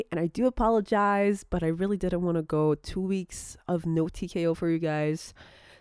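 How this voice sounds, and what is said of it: Low, tired, low-energy sick voice. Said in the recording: “my voice is not as, I don't know, energetic as it may sound normally... I'll be kind of keeping my voice low”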